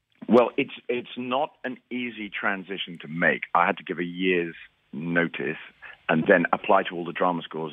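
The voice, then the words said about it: British accent. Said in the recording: “we can hear that in your accent. You're obviously British.”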